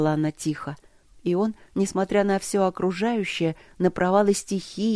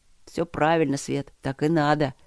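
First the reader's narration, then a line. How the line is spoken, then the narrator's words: Awkward deep bass. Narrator (Russian): пробасил он с неловкостью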